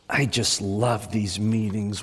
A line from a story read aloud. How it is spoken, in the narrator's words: whispered the woman